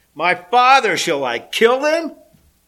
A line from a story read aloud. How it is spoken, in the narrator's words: he shouted to Elisha